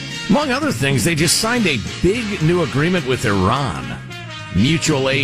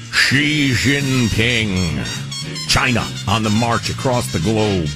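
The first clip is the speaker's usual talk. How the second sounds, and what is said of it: Dramatic announcer-style voice. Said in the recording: “And I use my dramatic voice, too.”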